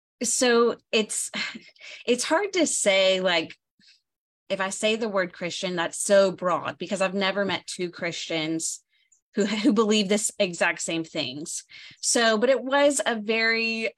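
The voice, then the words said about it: Southern US accent with twang. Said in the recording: “I'm from the South. You can tell from my accent. Like, I have the twang.”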